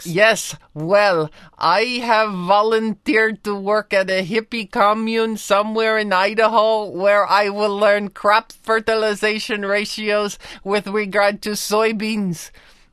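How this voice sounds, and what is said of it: Comic foreign exchange student voice. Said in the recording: “you sound just like an average foreign exchange student”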